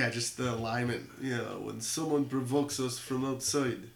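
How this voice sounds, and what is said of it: Usual voice. Nothing is said of it.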